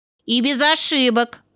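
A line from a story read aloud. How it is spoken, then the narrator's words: Stern remark. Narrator (Russian): строго заметил Миша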